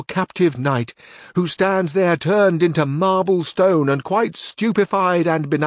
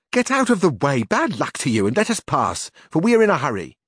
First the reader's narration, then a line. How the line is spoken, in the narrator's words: She, however, who had been stopped, breaking silence, said angrily and testily